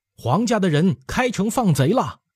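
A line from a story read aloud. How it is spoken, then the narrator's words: Stifled shout. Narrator (Chinese): 憋着嗓门喊道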